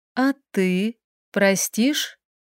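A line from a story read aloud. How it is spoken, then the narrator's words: Quiet. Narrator (Russian): Ее голос звучал тихо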